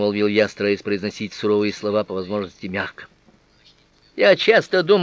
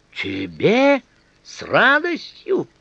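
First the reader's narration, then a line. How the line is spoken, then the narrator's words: Girl squealing. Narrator (Russian): Взвизгнула девушка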